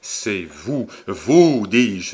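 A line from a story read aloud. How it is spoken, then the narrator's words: Exclaimed. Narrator (French): s'écria Montsoreau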